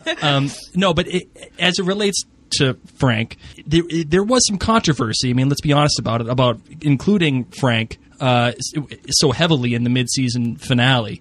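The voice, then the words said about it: Boston accent. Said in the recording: “I got an accent. It's a Boston accent. And it's not a Scottish one.”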